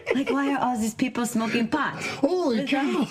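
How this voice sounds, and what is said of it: Weak attempt at German accent. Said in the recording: “I can't do a German accent. ... it was almost French. I gotta work on it.”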